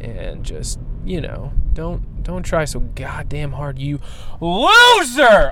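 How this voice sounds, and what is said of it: Yelling angrily. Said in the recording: “now I'm yelling again. I'm yelling again ... I just apologized for yelling and then I did it again”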